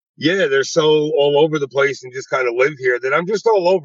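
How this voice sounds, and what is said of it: Fast speech, slight New York accent. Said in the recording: “I'm a little aggressive sometimes. I speak fast. I say have my little New York accent words”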